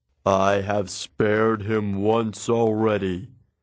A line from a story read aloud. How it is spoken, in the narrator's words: Zeus grumbled